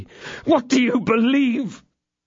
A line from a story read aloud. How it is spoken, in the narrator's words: His voice was choked by sobs